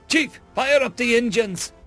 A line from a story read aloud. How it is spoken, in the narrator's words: shouted over the communications unit